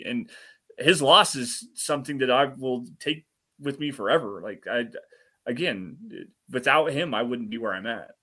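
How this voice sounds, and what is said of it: Emotional, choked-up voice. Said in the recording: “I'm starting to get a little bit emotional here”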